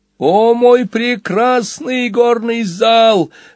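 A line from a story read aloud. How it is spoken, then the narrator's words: Lizard sobbing. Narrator (Russian): рыдал ящер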